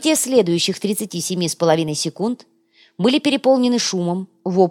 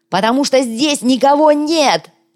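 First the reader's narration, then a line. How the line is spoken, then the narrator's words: Creature yelling. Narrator (Russian): завопил коряга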